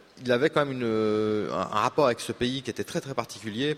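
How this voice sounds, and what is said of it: Swiss French accent. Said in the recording (French): “à mon accent, vous entendez que je suis helvète”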